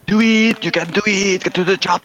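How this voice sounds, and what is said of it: Put-on Austrian accent. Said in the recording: “That's a lovely accent you got there. ... Do Austria.”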